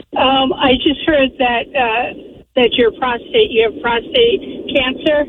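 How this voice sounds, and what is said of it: Slightly hoarse, fading voice. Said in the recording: “I'm losing my voice a little bit.”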